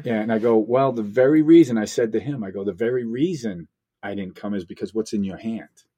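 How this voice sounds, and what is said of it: Boston-like accent. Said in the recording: “You have an accent. ... It's like Boston.”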